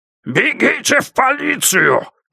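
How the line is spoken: Shouted. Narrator (Russian): крикнул Страшило

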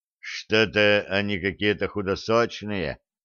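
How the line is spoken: Disapproving grumble. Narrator (Russian): неодобрительно пробурчал Федя

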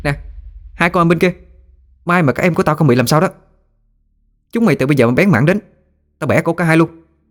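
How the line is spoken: Commanding shout. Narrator (Vietnamese): Nguyệt Anh quát tướng lệnh

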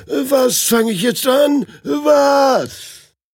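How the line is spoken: Groaning. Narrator (German): stöhnt er

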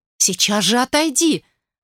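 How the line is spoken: Anxious mother's call. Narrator (Russian): Взволнованно позвала его мать

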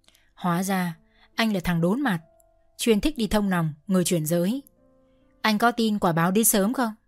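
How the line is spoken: Courageous whisper. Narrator (Vietnamese): cô lấy hết can đảm thì thào

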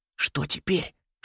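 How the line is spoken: Frightened whisper. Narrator (Russian): шепнул, едва справляясь со страхом

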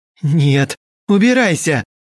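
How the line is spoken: Soul's anguished wail. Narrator (Russian): взвыла душа Евгении

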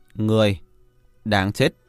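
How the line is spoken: Cold and calm. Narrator (Vietnamese): hắn ta lạnh lùng, bình tĩnh nói

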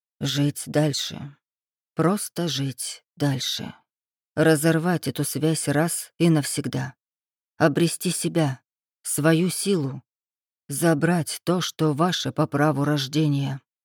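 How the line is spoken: Calm. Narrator (Russian): Марк Семенович спокойно произнес

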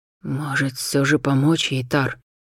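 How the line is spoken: Quiet question. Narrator (Russian): тихо спросил Ашириса генерал Шайтар

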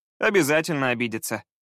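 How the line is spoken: Laughing. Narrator (Russian): рассмеялся Скай

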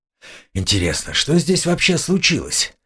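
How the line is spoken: Muttering. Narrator (Russian): пробормотал

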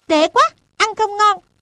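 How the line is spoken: Angry pouting. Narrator (Vietnamese): Tức giận, biểu môi nói

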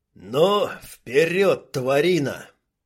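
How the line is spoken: Growl. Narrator (Russian): прорычал Дима

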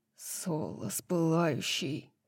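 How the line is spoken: Growled. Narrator (Russian): прорычал Хант

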